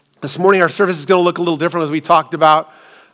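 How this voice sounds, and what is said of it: Strained, recovering voice after losing it. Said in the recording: “apologize for my voice ... last week, I completely lost my voice ... it's starting to come back a little bit at a time”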